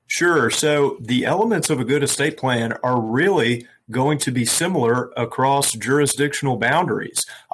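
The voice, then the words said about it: Speaks with a noticeable accent. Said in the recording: “I love your accent. ... I definitely love your accent.”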